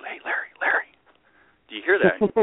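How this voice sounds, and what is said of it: Whispering. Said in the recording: “So I'm whispering over”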